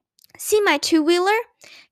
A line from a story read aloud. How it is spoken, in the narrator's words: cried Ramona